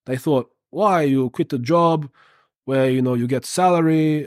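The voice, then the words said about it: Put-on accent imitating someone's speech. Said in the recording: “I don't know why I'm doing this accent, but that's how they talk.”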